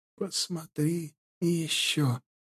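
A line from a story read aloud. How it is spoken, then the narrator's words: Faint whisper. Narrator (Russian): прошептали истончающиеся губы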